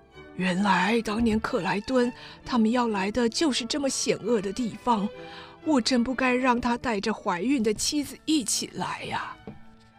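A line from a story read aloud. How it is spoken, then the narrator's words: Muttering to himself. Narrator (Chinese): 波特教授喃喃自语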